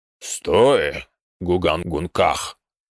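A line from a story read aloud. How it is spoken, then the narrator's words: Rich deep bass. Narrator (Russian): сочным басом произнес он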